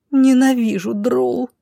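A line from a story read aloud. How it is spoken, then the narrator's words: Moaning. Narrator (Russian): простонала Роша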